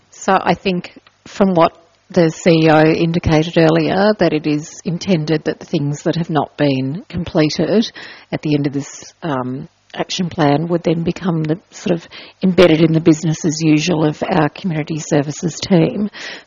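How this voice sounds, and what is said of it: Hoarse, fading voice. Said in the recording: “since I'm losing my voice?”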